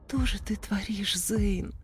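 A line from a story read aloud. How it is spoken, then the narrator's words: Whisper. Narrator (Russian): прошептала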